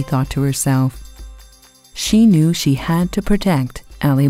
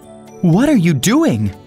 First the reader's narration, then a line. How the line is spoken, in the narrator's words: cried Ali Baba